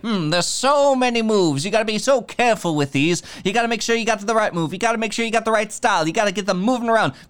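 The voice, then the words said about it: Fast smooth auctioneer-like talking. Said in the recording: “Why is Pete like a racehorse announcer? ... He's a fast, smooth talking. ... An auctioneer. ... Is this your Pete impression? ... This is my Pete's emotional impression.”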